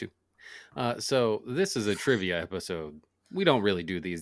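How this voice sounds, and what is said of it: Usual voice. Nothing is said of it.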